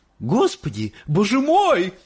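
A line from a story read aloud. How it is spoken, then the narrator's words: Sudden shriek. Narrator (Russian): вдруг завизжала миссис Барегард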